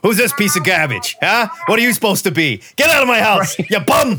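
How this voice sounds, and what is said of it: Old New York accent. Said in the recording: “old New York accent”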